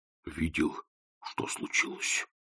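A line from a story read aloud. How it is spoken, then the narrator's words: Whisper. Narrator (Russian): шепнул Кардинг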